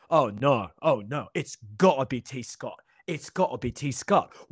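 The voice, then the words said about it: Bad put-on British accent. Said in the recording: “in my bad British accent, forgive me.”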